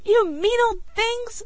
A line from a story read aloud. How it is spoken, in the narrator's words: screamed Billy